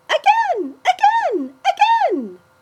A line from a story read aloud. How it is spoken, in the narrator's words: jumped up and down in delight, shrieking